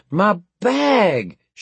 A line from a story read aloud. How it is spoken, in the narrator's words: she wailed